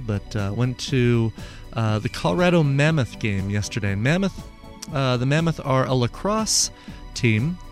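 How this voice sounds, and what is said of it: Slightly hoarse voice. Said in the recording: “A little bit hoarse tonight. I don't know if you can tell”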